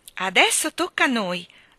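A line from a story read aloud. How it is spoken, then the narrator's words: Exclaimed together. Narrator (Italian): esclamarono Jane e Michael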